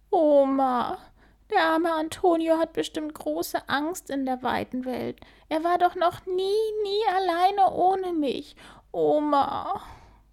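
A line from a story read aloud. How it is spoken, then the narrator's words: Sobbing. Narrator (German): schluchzt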